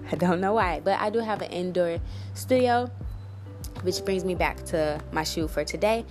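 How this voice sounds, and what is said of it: Voice with a cold, throat clearing. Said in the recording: “I keep clearing my throat because I have a cold”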